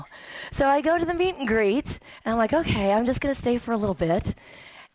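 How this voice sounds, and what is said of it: Weak, strained voice. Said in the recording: “whoa, where did my voice go?”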